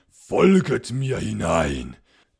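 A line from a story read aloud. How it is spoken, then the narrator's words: Nobleman calling to guests. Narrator (German): rief der schwarze Graf seinen gezogenen Gästen zu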